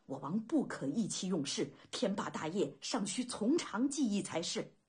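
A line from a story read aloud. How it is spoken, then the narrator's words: Low, urgent voice. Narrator (Chinese): 玉书低声急道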